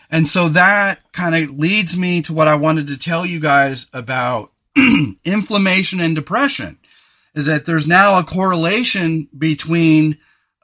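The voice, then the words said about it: Hoarse, phlegmy voice. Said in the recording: “my voice is so jacked. ... I got to get a frog out of my throat. ... I'm having a phlegm day.”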